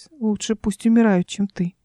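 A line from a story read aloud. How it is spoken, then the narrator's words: Muttered. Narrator (Russian): пробормотала она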